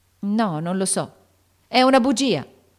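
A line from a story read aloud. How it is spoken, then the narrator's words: Fierce shout. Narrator (Italian): gridò Joe con un'espressione così feroce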